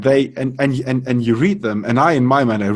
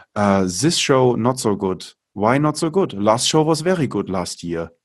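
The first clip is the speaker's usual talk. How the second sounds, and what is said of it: Thick put-on German accent. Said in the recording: “I read them with like the thickest German accent”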